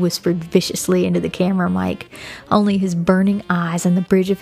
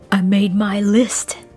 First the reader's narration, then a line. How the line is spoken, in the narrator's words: he growled